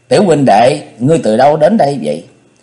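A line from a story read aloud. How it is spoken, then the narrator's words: Fond, smiling question. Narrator (Vietnamese): Công Tôn Ngọc thích đứa bé này ngây thơ khả ái, y mỉm cười hỏi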